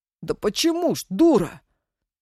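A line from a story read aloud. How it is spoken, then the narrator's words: Loud yelling. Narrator (Russian): заорал Мишка на всю живодерку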